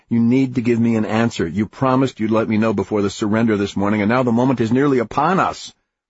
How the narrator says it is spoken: he said impatiently

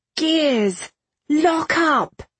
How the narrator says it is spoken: Irene shouted, pitching her voice to carry as far as possible

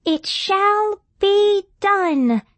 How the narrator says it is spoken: intoned the mouse, with audible capital letters on every word

